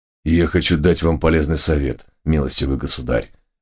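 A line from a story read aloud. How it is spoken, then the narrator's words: Stern, threatening reply. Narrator (Russian): ответил барон Герменфельд суровым и угрожающим тоном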